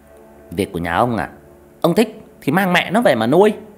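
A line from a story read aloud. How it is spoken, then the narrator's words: Sharp shouted retort. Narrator (Vietnamese): Mụ dì ghẻ quát lại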